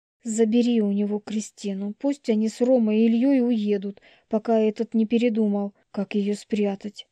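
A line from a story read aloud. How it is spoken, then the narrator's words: Loud whisper. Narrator (Russian): громко зашептала Марина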